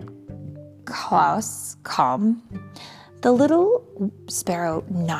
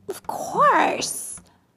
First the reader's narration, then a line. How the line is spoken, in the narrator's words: said Klaus excitedly